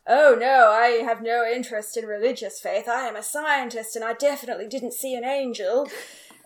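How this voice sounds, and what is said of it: Imitates another person's voice. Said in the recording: “That's a really good Michael impression. ... Oh, it was excellent.”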